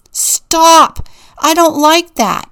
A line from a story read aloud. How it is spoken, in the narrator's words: yelled